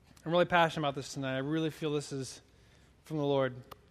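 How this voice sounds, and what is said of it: Fast speech, voice going hoarse. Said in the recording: “Talking really fast? Losing my voice?”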